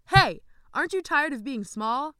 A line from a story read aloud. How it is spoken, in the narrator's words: He shouted